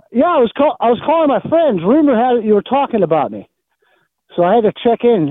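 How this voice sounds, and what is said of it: Slight Pittsburgh accent, nasal voice. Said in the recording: “Do I have a Pittsburgh accent? ... Slightly. ... A little bit. ... I have a nasally voice.”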